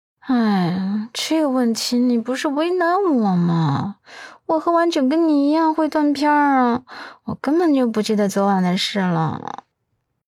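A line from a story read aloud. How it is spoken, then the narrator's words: Sighing. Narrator (Chinese): 阮一人叹息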